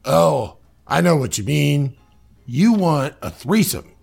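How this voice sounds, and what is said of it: Trump impression with southern accent. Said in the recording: “Suddenly Trump now has a southern accent.”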